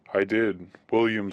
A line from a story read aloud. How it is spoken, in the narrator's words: said the teacher